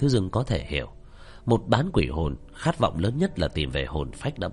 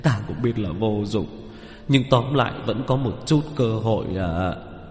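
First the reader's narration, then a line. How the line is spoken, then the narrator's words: Gloomy sigh. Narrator (Vietnamese): Vẻ mặt của Phương Nhạc nhạc ảm đạm, thở dài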